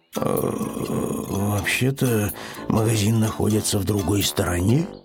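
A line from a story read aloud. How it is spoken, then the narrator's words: Muttered under breath. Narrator (Russian): пробормотал он вполголоса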